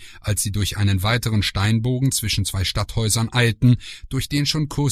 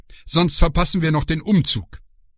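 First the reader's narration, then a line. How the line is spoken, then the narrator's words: Called over shoulder. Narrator (German): rief über die Schulter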